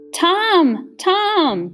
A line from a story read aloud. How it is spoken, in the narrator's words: kept shouting